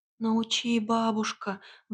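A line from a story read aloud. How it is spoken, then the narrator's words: Pleading. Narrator (Russian): взмолилась Василиса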